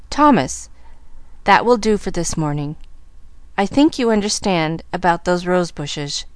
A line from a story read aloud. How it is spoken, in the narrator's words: she said stiffly